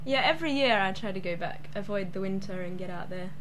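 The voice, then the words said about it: Australian accent. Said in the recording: “You've got an accent there. Where are you from? Australia. ... Australian. Yeah, West Coast, Southwest.”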